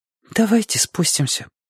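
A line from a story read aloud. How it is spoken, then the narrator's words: Whispered. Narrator (Russian): прошептал Петька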